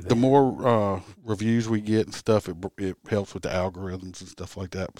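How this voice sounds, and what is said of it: Southern American accent. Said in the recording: “the host's delicious Southern accent”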